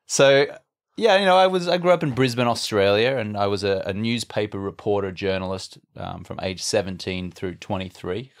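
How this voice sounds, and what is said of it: Australian English accent. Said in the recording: “I'm Australian, as you can tell from my funny accent.”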